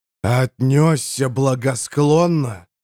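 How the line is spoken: Growl. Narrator (Russian): прорычал герцог

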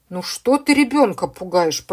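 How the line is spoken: Grumbling. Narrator (Russian): пробурчал дядя Миша

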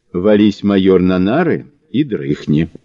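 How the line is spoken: Plain. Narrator (Russian): сказал Кузьмич

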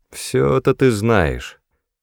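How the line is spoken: Gloomy. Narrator (Russian): мрачно начал он

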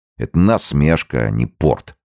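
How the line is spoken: Grumbled. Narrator (Russian): ворчал

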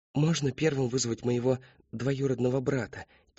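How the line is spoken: Quiet question. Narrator (Russian): тихо спросила Дженни Херцог

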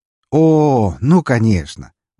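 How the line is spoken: Cheerful exclamation. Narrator (Russian): воскликнул весело

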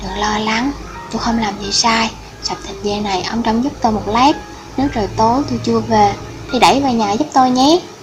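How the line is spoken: Soft sighing. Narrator (Vietnamese): Dương Thần khẽ thở dài nói với lão Lý

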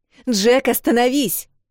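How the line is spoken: Sharp shout. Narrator (Russian): прикрикнула Эл

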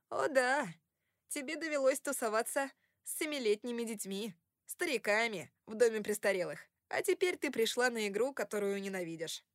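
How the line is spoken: Laughing. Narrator (Russian): рассмеялся Кори

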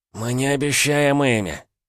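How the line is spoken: Strained hoarse voice behind. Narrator (Russian): прохрипели сзади с натугой

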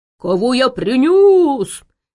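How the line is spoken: Troll screaming. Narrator (Russian): завопил тролль

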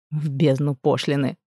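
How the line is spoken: King growling. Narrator (Russian): рыкнул король

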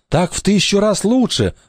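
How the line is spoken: Joyful agreement. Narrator (Russian): радостно согласился Вася

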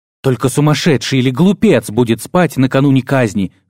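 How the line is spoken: Spat angrily. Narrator (Russian): зло плюнул Владис

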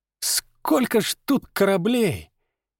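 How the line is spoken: Involuntary breathless exclamation. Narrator (Russian): невольно выдохнул Степка

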